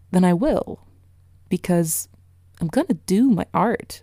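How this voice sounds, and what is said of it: Line spoken in odd put-on accent. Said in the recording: “that was a weird accent.”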